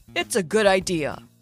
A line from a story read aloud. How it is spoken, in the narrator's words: he said in his usual mentor voice